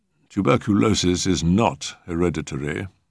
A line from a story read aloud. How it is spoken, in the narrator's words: said dryly